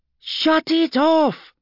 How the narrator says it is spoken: screeched Gelsa, the effort of raising her voice sending jarring spasms through her jaw

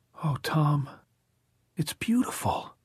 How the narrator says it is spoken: Alice said in a too rapturous voice

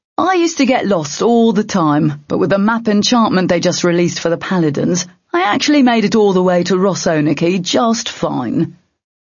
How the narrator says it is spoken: the manticore was saying with a laugh

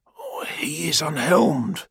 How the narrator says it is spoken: said Gargo quietly

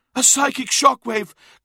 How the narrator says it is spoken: gasped Uthisar

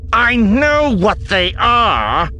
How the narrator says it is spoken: Rossi growled

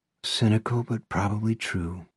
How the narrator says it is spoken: Izzy says with a sigh

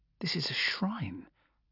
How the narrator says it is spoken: I murmured

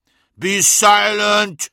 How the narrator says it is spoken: thundered Magnus

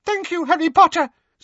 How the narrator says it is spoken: squeaked Dobby

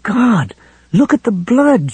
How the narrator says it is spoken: she cried in a choked voice

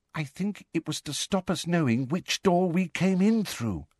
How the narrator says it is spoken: said Ginny in a hushed voice

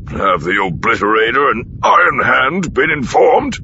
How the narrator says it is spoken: He asked, grunting out the last word as he leaned over to pull on his boots

